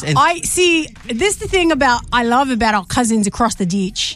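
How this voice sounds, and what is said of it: Put-on Australian accent. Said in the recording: “can you please give us your Australian accent?”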